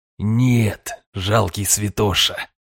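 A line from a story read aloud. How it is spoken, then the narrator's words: Hateful exhale. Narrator (Russian): с ненавистью выдохнул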